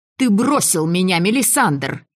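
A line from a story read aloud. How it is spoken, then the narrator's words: Loud bark. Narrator (Russian): рявкнула я даже громче, чем собиралась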